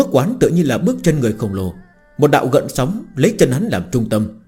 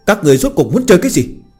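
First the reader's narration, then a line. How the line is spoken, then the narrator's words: Angry question. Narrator (Vietnamese): Lâm Phàm giận dữ hỏi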